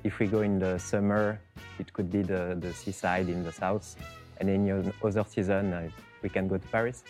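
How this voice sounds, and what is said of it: French accent. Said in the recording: “as my accent can tell, I'm a bit biased ... I'll take you to France ... accents kill you”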